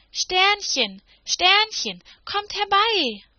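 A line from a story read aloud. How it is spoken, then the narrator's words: Sudden loud call. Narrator (German): rief Anneliese plötzlich ganz laut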